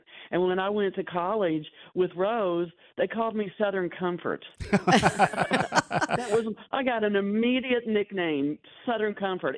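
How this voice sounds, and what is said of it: Southern US accent. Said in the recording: “your dialect that you're definitely not originally from Pennsylvania ... I didn't know Pennsylvanians had a southern accent like that”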